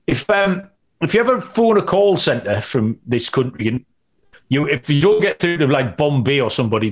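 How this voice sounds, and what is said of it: Newcastle English accent. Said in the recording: “the person you'll get will have my accent. They only employ people from Newcastle ... if you get through an English call centre, this is the accent that you get”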